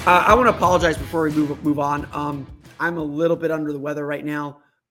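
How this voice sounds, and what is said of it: Hoarse, raspy voice. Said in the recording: “my voice is a little hoarse and raspy”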